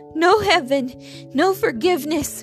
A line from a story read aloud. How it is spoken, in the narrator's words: he yelled